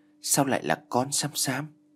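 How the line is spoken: Strange frightened voice. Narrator (Vietnamese): Giọng của Sam Sam nghe có vẻ khác thường, có lẽ vì quá sợ hãi

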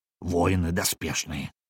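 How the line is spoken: Whisper, bear cub. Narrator (Russian): шепнул мне медвежонок

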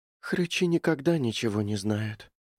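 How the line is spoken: Sighing. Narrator (Russian): вздохнула Мэри

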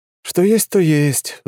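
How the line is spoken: Sighing. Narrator (Russian): вздохнул я

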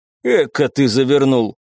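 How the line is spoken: Amused snort. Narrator (Russian): хмыкнул начальник штаба

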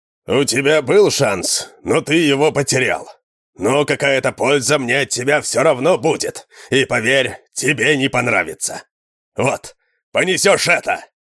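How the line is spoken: Roared. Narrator (Russian): Взревел Морган

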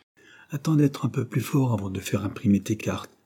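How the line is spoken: Plain. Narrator (French): répondit Jane

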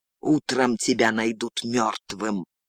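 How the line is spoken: Hiss. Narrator (Russian): прошипела

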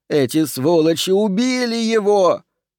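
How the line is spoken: Shouting. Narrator (Russian): Человек закричал

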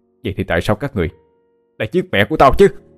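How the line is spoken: Screaming question. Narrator (Vietnamese): Luân vội gào thét lên mà hỏi

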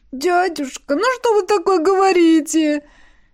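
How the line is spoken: Squeak. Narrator (Russian): Пискнул гном

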